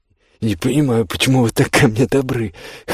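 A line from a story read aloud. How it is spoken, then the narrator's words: Hoarse mutter. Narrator (Russian): хрипло пробормотала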